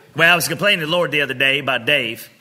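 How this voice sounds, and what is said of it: Imitates another person's voice. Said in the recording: “I'm a terrible Bishop Jay. Get ready. Get ready. My voice will get shot right around... Sometimes I just pass the time by being imitating people... Have you ever heard Joyce Meyer?”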